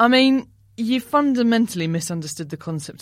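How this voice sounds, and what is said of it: Usual voice. Nothing is said of it.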